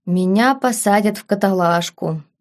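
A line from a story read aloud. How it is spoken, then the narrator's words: Sad. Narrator (Russian): грустно проговорил барон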